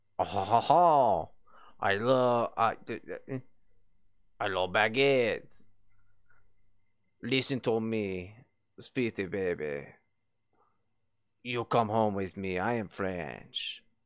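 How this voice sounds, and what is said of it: Weak attempt at a French accent. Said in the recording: “I can't do a fucking French accent ... It's not good enough.”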